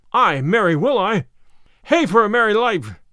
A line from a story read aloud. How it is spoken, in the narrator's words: cried he